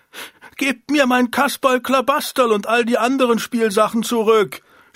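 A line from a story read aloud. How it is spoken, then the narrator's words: Shouting. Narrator (German): schrie Jochen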